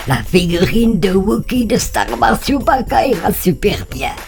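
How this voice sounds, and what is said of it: Put-on German accent. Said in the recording (French): “Pourquoi je prends l'accent allemand?”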